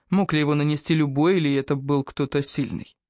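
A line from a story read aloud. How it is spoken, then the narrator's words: Sighing. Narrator (Russian): Купер вздохнул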